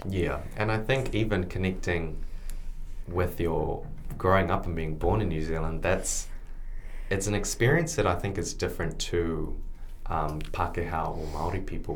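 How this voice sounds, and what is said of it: Clear, neutral, not fully New Zealand accent. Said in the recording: “I wouldn't say that I have a complete New Zealand accent. ... I always have quite a clear, neutral kind of voice.”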